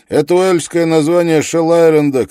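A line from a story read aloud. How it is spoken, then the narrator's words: Shouted over engine roar. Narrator (Russian): крикнул он сквозь рев мотора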